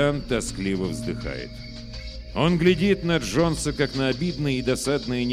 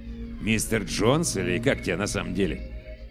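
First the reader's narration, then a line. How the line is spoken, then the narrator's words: Mumbled question. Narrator (Russian): бормочет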